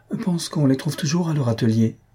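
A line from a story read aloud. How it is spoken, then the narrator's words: Timid. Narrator (French): dit timidement Madame Jujube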